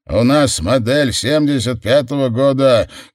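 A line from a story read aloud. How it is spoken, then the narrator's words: Shouted. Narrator (Russian): крикнул Вейнрайт с водительского места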